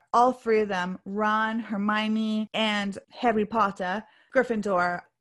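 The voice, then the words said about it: Poorly done put-on British accent. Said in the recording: “Pardon me and my accent... It's terrible accent... My accent is terrible... Butcher the accent... we're butchering it right now”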